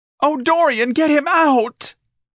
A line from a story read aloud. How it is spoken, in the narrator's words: An elegant shrieked in panic